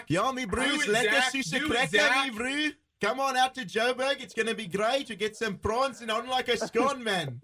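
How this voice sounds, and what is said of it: Put-on South African accent. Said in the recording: “do your best South African accent ... That was awesome. ... That was magnificent. ... That was incredible.”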